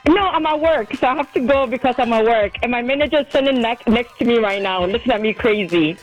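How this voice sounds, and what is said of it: Screaming, excited loud voice. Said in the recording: “I'm screaming right now.”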